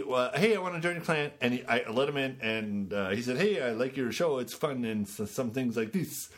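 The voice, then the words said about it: Attempted Swedish accent. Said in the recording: “That's not the right accent.”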